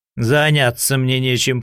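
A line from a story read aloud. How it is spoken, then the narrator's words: Grumbling. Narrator (Russian): проворчал Говоров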